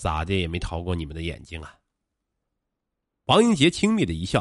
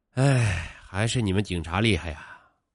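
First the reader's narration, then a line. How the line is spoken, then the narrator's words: Exaggerated long sigh. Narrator (Chinese): 煞有介事的长叹一声说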